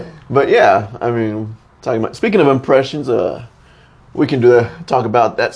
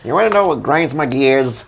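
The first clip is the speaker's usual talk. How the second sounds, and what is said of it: Poor cartoon character voice impression. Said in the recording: “That's a terrible Peter Griffin impression.”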